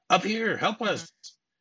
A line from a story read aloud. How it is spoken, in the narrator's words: we hear shouts from above